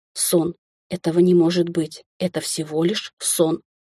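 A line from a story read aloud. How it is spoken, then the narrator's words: Muttering. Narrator (Russian): Бормотала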